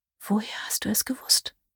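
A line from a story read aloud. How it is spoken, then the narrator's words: Whispered. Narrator (German): flüsterte sie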